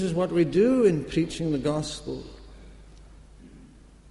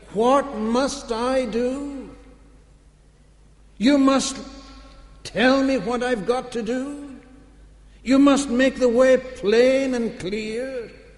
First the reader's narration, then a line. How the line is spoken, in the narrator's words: in his perplexity, he cried, he asked